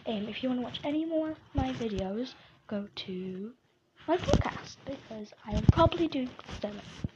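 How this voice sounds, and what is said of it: Croaky, just-woke-up voice. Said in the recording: “I just woke up, so if I sound a bit croaky”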